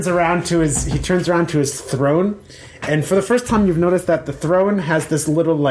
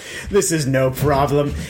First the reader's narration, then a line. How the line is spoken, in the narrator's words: laughs, and he says